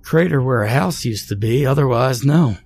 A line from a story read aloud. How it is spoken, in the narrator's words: said, yawning slightly